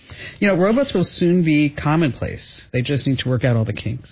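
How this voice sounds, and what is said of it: New Jersey accent. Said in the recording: “Stop making fun of me the way that I say robot. ... That's my New Jersey accent coming out.”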